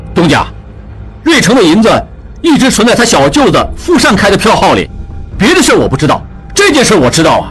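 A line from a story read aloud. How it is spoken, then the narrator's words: Suddenly louder voice. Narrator (Chinese): 王宗宇声音也大起来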